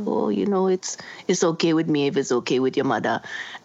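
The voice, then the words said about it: Poor put-on Trinidadian accent. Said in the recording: “That's a terrible Trini accent.”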